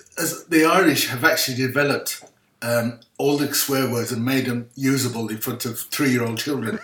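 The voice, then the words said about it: Irish accent. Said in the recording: “it, sounds a lot friendlier in the Irish accent”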